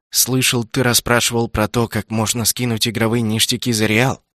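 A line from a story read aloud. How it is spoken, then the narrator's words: Conspiratorial tone. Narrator (Russian): заговорщическим тоном начал он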